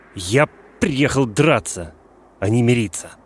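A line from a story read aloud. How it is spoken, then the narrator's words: Muffled, angry interruption. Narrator (Russian): Грант перебил меня, сказав глухо и зло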